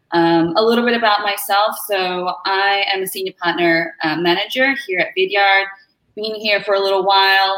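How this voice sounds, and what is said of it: Australian accent. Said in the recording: “I'm from Melbourne, Australia, originally. You might be able to tell from the accent.”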